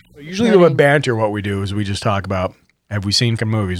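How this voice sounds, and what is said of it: Smooth radio-style voice. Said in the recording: “You have a really good radio voice”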